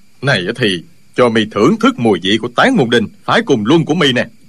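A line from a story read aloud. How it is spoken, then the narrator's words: Furious shout. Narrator (Vietnamese): Y cả giận quát lên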